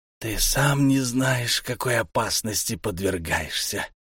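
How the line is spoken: Hunted, fearful hiss. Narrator (Russian): прошипел Мурскул, затравленно озираясь

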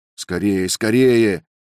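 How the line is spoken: Shout. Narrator (Russian): крикнул Роберт

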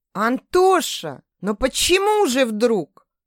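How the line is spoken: Exclaiming. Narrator (Russian): воскликнула Рената

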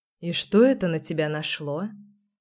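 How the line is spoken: Asked in an undertone. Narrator (Russian): Поинтересовалась я вполголоса

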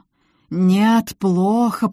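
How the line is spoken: Moaning. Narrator (Russian): простонал незнакомец

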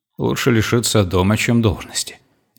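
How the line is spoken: Calm. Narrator (Russian): спокойно произнес

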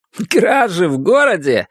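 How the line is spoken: Laughing. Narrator (Russian): рассмеялся Уильям

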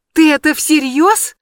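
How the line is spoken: Horrified sob. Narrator (Russian): я в ужасе всхлипнула

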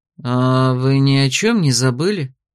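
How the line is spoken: Insinuating, ingratiating question. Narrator (Russian): спросил вкрадчиво

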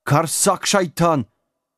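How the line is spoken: Three locals yelling loudly. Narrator (Russian): В голос завопила вся троица местных

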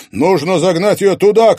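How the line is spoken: Shouting. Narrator (Russian): крикнул Стас

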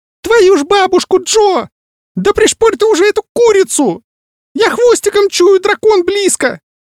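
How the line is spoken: Squeaking in the ear. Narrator (Russian): пищал мне в ухо Маус

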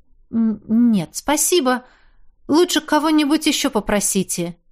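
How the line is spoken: Hesitant. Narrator (Russian): неуверенно сказала

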